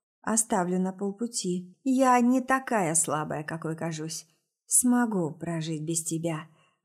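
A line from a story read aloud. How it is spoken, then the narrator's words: Quiet. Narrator (Russian): отвечаю так же тихо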